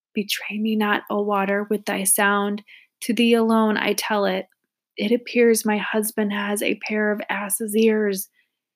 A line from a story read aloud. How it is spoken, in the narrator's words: Her heart was all on fire, whispered to the water near the ground